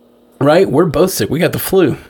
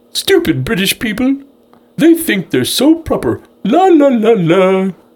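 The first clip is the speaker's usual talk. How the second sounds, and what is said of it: Homer Simpson with British accent. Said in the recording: “here's a British Homer Simpson voice. Doing my best.”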